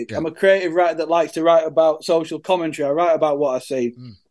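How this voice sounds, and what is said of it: Speaks with his own accent. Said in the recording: “I can't change my accent.”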